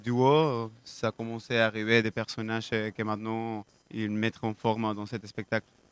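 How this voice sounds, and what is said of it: Slight Argentine accent. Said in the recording (French): “vous avez un petit accent,... vous êtes d'origine argentine”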